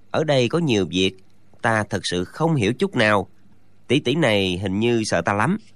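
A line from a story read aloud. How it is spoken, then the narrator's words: Muttering to himself. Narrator (Vietnamese): chàng lẩm bẩm sau lưng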